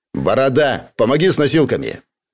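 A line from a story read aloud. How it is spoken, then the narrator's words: Angry curt remark. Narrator (Russian): зло бросил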